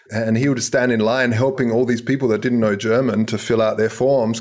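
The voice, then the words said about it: Australian accent. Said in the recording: “I grew up in Australia, hence the wacky accent.”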